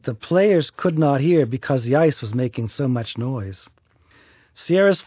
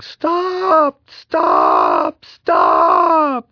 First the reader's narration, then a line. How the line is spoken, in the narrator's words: yelling